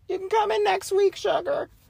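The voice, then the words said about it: Sweet old lady voice. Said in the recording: “my attempt at an old lady voice”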